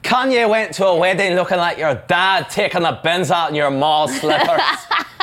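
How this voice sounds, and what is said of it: Put-on Scottish accent. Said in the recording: “Apologies to Kelly McDonald there for that Scottish accent.”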